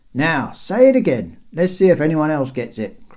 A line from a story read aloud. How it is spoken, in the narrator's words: cried the first man